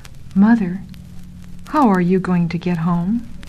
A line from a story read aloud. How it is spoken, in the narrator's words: Another young salesman said softly